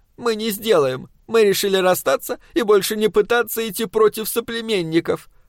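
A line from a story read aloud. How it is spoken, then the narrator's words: Tearful. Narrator (Russian): ответила сквозь слезы Легна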